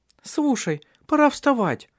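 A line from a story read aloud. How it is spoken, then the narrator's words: Squeaky little voice. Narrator (Russian): пропищал голосок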